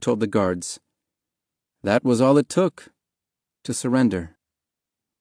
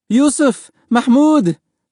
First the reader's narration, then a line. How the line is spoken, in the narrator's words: Mahmoud's mother cried